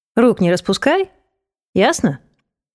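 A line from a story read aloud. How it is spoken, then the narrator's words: Mocking. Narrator (Russian): Насмешливо добавил он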